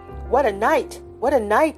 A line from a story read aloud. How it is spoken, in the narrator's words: cried